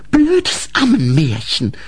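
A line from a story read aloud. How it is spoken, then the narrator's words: Hissed. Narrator (German): fauchte Grete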